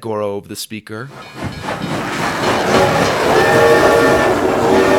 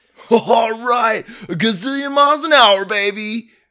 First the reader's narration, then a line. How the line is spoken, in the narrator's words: shouted Dallas